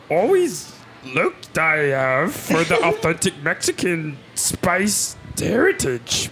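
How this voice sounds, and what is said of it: Yoda impression. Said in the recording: “in a Yoda voice”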